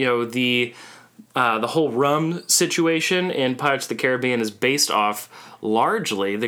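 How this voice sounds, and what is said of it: Usual voice. Nothing is said of it.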